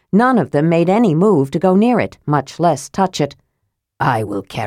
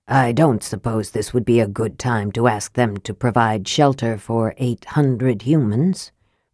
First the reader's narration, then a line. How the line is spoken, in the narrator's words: Raistlin murmured